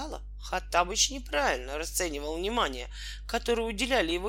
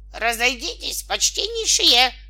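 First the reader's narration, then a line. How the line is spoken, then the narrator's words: Loud bark over crowd. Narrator (Russian): рявкнул он, перекрывая и толпы, и звуки оркестра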